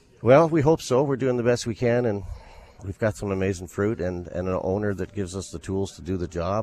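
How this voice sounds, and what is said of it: Smooth professional radio announcer voice. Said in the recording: “that radio voice”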